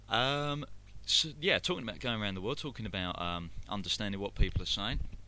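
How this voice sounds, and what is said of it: Very heavy London English accent. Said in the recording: “I'm English, I'm a Londoner, born and bred, and I've got a very, very heavy accent.”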